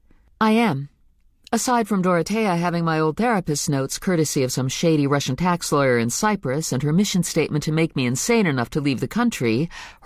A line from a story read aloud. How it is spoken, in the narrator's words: her voice sounds surprisingly calm